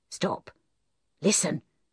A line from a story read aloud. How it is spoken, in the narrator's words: said Troy in a whisper